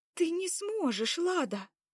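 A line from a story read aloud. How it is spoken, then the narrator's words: Exclaimed. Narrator (Russian): воскликнула Заряна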